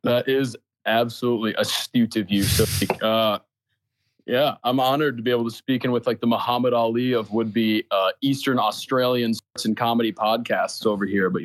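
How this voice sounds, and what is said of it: Slight American accent. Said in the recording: “just a slight US accent in your voice ... he's from Minnesota”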